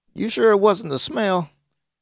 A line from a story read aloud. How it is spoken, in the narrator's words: made a fake laugh